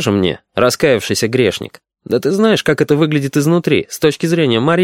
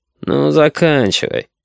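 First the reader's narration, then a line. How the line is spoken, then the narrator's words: Drawling, disdainful pity. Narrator (Russian): со слегка брезгливой жалостью протянул Максим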